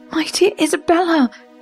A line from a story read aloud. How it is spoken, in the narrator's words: she cried